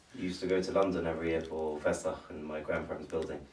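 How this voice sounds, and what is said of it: British accent. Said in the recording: “As I hear your accent, I'm reminded that he's British.”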